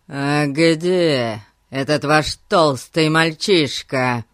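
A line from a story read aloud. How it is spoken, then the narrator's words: Sudden menacing question. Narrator (Russian): вдруг грозным тоном спросил мистер Гун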